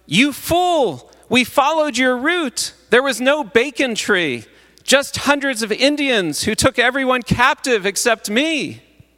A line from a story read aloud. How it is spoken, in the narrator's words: The leader shouted